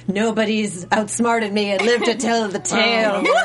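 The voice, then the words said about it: Dramatic villain voice. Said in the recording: “the dramatic voice”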